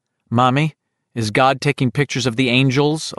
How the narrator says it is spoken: a little boy asks

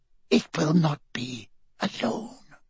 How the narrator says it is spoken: she hissed

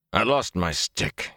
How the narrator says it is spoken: he muttered

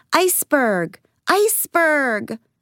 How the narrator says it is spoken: yelling back

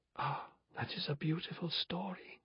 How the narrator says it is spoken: said Pandora under her breath

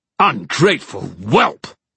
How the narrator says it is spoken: barked the king, sneering at Kieran

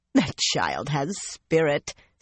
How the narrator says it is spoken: Cerulea laughed

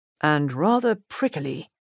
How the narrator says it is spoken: Edgar muttered in Kitty's ear

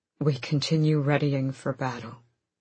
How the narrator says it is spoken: Rowan said hoarsely

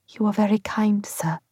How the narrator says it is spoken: I muttered, not promising anything

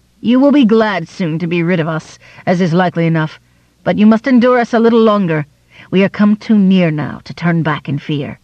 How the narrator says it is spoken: she laughed and said

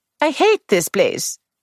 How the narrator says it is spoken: she cried

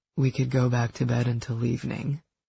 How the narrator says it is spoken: purred

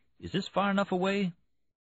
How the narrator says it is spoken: Oak Tree said nervously

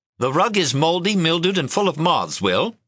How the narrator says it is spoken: she snapped

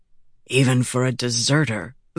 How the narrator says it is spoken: Vatha said under his breath

